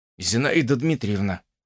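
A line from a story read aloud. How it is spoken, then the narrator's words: Hollow muffled voice. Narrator (Russian): начал он глухим голосом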